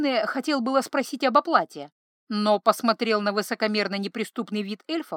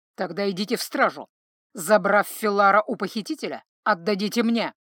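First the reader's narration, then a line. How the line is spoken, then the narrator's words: Said menacingly. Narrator (Russian): грозно сказал эльф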